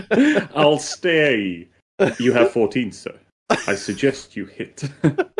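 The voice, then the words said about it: Austin Powers impression. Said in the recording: “Austin, Austin Powers ... quite a good impersonation.”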